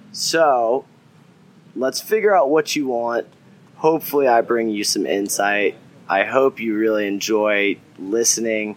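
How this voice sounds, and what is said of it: Southern American accent. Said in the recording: “my southern accent, too bad. I can't change it.”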